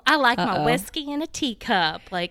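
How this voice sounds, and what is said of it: Affected put-on Southern accent. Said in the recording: “here she goes. She's pulled out her accent. ... this so like affected, like, I'm such a Southern girl”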